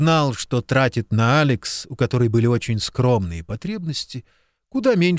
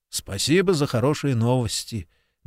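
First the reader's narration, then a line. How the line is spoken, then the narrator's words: Grim smirk. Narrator (Russian): мрачно усмехнулся Куб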